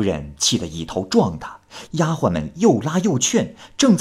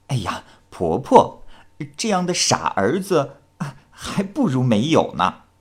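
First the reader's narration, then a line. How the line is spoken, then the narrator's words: Slight smile. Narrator (Chinese): 小翠微微笑着说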